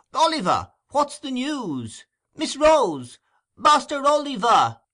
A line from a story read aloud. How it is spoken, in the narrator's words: cried the voice